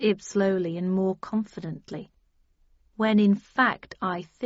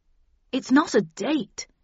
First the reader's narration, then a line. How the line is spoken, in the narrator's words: exclaimed Arnold quickly